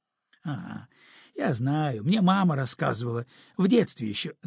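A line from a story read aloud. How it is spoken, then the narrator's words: Laughing. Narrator (Russian): засмеялся Ромка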